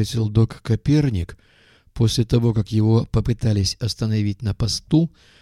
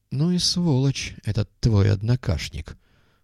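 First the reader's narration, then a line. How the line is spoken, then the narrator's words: Through gritted teeth. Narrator (Russian): процедил артист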